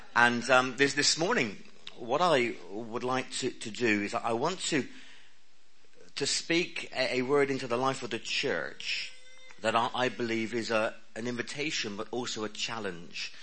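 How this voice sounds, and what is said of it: West Country English accent. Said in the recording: “my accent, because I speak the language of heaven. This is the accent of heaven... The West Country accent.”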